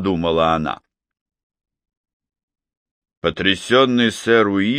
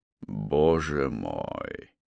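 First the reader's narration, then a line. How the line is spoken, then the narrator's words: Muttering. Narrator (Russian): пробормотал он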